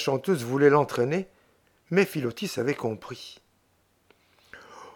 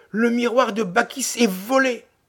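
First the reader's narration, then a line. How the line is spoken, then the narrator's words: Group exclaiming. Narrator (French): toutes s'exclamèrent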